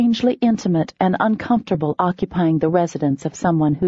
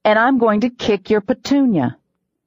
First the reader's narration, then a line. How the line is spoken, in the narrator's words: I growled